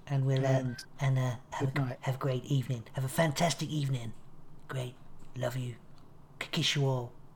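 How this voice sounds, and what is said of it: Imitates another person's voice. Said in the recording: “That's not even a good impression.”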